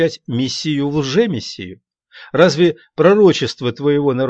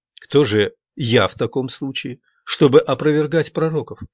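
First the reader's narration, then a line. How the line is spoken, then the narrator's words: Plain. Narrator (Russian): спросил я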